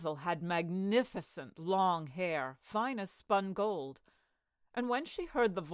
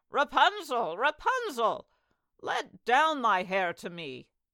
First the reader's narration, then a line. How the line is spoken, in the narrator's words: the enchantress cried